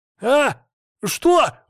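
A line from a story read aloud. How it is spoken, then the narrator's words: Startled cry, cut off. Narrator (Russian): хотел закричать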